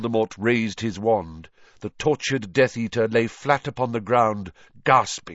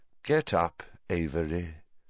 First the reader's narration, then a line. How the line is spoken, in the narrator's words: said Voldemort softly